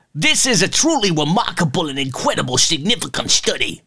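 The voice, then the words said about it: Impression of a doctor quoted. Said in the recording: “That was a pretty good impression, wasn't it?”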